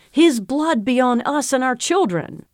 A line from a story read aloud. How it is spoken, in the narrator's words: They exclaimed to him